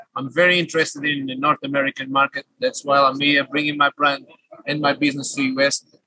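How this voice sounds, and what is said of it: Slight Portuguese accent. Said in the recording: “I detect a slight accent ... I'm a Portuguese national”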